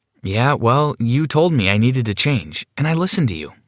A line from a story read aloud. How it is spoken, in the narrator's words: I replied